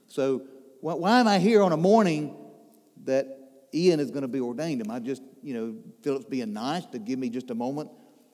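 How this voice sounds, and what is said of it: Southern drawl. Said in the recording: “my southern drawl”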